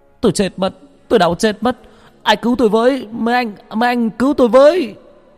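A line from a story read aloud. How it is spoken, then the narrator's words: Pained screaming. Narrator (Vietnamese): ở phòng giam của bác Cổ lại vang lên tiếng gào thét đau đớn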